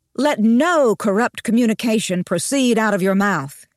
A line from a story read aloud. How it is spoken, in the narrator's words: he quoted in a loud voice